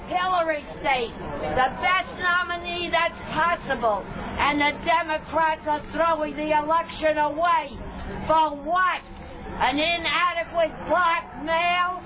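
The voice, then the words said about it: New York accent. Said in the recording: “She's from New York, hence the accent.”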